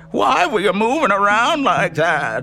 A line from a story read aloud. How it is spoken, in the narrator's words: He asked in a shriek I'd never heard before